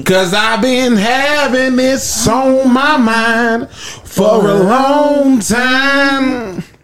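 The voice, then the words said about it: Sung line with slight twang. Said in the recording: “You got a little twang in there.”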